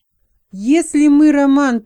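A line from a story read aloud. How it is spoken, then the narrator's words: Loud shout. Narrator (Russian): прокричал человек прямо в лицо голосу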